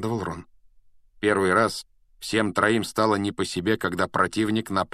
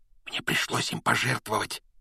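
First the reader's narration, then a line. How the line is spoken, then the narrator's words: Shaken whisper. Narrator (Russian): прошептал Рон, он тоже был потрясен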